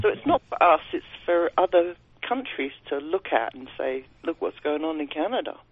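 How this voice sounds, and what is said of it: British accent. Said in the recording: “You sound like you have a British accent.”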